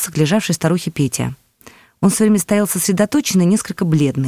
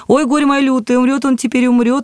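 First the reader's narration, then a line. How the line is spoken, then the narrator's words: Woman sobbing. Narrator (Russian): рыдала баба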